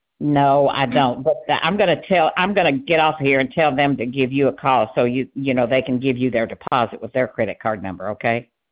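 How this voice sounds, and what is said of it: Speaks with a regional accent. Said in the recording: “Might be my accent, honey.”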